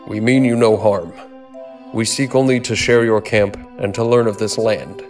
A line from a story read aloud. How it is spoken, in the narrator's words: he called out